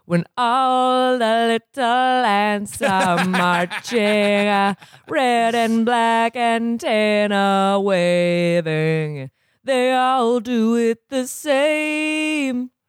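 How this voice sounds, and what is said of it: Sung impression with odd cadence. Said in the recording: “do a decent impression of because he has the weirdest cadence. Like he has the weirdest like tone.”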